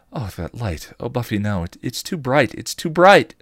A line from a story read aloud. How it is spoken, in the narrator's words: she cried, starting to panic